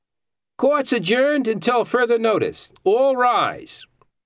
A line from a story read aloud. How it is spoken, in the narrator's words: Carl yelled